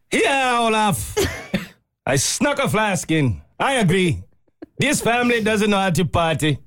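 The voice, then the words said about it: Put-on Italian accent. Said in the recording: “That's your Italian accent.”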